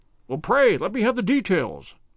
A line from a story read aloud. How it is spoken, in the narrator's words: I cried